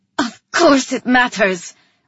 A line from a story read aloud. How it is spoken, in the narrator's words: I snapped at him